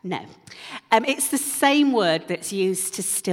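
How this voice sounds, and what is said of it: Usual voice. Nothing is said of it.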